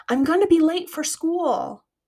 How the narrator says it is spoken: the boy shouts back through panting breaths

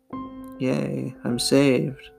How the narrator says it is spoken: thought meekly to himself

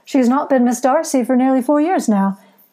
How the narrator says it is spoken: said with a good-natured chuckle

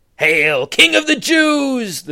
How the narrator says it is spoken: the soldiers cried mocked him

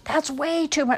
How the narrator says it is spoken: shouted Jerome

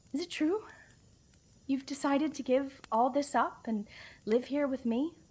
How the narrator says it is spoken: cried happily

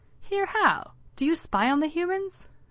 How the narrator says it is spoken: Duncan laughed

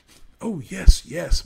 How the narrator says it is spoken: Maximus eagerly agreed

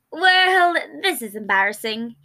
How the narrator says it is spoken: he chuckled

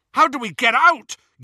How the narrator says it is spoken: yelled Ron over all the screaming

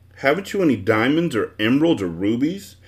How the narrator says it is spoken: asked the bug irritably, for he was quite disappointed in what he'd seen so far

